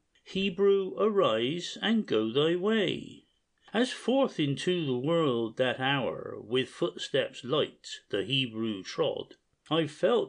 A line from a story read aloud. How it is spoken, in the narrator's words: he cried